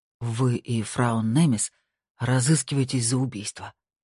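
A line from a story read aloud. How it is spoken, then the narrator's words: Breathless exhale. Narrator (Russian): выдохнул Эккесон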